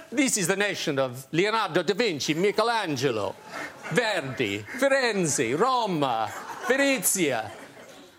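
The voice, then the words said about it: Put-on Italian accent. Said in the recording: “Apologies for the Italian accent.”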